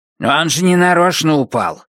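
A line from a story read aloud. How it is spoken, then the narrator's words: Snapping retort. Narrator (Russian): огрызнулась Пат со своего места позади них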